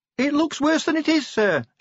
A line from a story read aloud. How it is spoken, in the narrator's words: shouted Cheery over the din